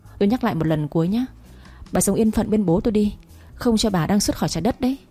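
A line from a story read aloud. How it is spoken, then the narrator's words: Cold, sighing voice. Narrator (Vietnamese): Nam thở dài lạnh lùng nói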